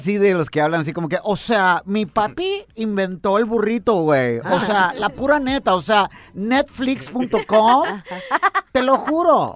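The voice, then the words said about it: Posh Mexican rich-kid character voice. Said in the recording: “He sounds like a niño fresa”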